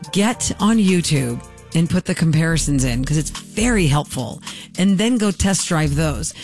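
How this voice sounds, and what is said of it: Usual voice. Nothing is said of it.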